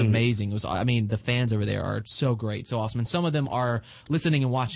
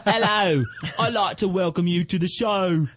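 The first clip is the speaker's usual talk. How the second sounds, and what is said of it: Bad put-on Cockney British accent. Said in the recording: “I would try to talk like them, and they're like, you are terrible ... that's like some fucking Cockney like Beatles ... shit ... not how we talk ... you can't get the accent right”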